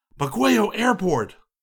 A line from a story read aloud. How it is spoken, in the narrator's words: gasped in one voice